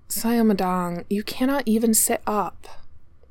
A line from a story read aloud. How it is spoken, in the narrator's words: the nurse started to say wearily